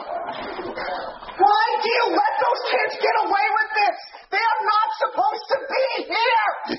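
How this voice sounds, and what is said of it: Loud, raised angry voice. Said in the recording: “lower your voice ... Lower your voice.”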